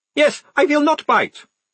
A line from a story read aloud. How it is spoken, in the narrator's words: said the face cheerfully